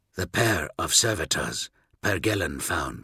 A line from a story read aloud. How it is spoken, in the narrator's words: Another of the three, armored in black, muttered